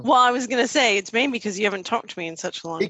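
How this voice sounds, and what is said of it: Strong American accent. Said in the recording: “Your accent sounds stronger than it used to be. ... My American accent?”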